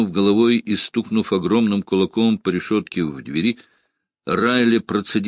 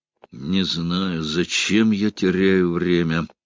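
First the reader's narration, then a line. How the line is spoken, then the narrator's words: Weary. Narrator (Russian): устало проговорил Райли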